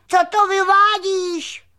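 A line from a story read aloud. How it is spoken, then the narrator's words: Shouted. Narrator (Czech): křikl křemílek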